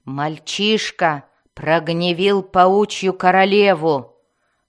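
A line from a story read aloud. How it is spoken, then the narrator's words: Furious weary growl. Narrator (Russian): прорычала Мелис, явно разъяренная и утомленная сарказмом Зака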